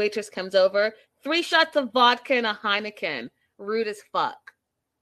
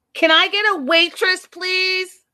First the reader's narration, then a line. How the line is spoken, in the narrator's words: She screams